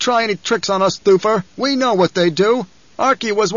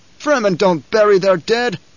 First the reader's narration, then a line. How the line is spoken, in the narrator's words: the man barked